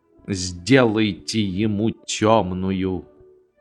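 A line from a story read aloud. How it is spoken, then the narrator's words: Someone grumbled. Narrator (Russian): Кто-то проворчал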